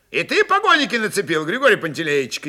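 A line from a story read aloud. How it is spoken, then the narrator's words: Shouted. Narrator (Russian): крикнул он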